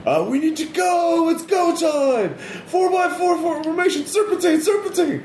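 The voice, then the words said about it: Hoarse shouting character voice. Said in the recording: “Then you hear a hoarse voice.”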